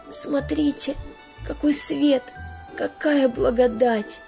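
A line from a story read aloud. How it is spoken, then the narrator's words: Joyful tearful whisper. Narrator (Russian): прошептал он и заплакал, не от горя, а от радости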